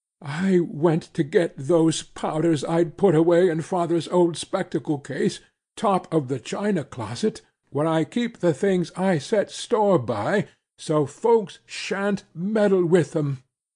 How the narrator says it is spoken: continued in a trembling voice

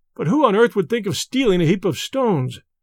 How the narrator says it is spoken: cried a third

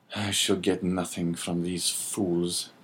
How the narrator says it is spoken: he muttered

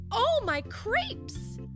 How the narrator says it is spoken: she exclaimed

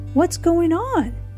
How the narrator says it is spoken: he asked nervously

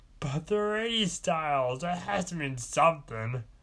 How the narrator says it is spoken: Purple Guy yelled

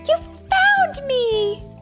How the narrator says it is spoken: Keke cheered

